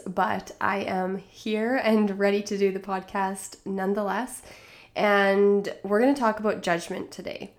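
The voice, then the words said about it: Congested, stuffy nasal voice. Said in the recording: “I'm a little plugged up today. You maybe can tell in my voice”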